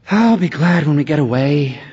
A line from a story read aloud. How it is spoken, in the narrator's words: she sighed